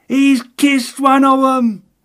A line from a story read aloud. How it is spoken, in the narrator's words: exclaimed the delighted little man